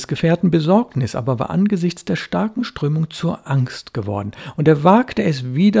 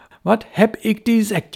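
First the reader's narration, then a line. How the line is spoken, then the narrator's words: Lamenting. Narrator (German): jammert sein Freund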